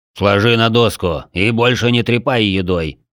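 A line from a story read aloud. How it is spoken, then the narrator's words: Deep, instructive voice. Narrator (Russian): наставительно пробасил тот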